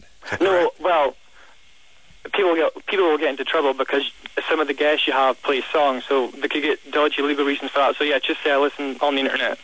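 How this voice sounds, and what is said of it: Delightful Dundee accent. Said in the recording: “you have such a delightful accent. It's so nice. ... Dundee.”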